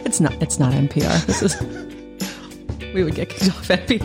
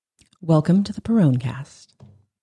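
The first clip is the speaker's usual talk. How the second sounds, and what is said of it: Public radio announcer voice. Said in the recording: “You do have an NPR voice.”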